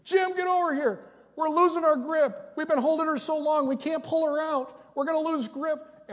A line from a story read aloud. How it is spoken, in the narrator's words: they're screaming